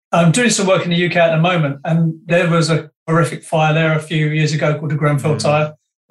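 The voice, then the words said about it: Mixed British and Canadian accent. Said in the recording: “I'm a Brit and a Canadian. This is why this accent sounds strange.”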